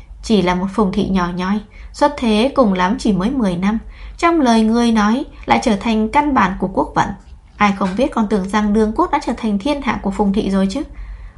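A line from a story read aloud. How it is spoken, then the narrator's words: Smiling, measured unhurried tone. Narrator (Vietnamese): Khóe miệng Hoa Nhất Đường mỉm cười, giọng nói không nhanh không chậm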